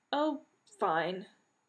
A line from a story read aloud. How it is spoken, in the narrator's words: Genie said weakly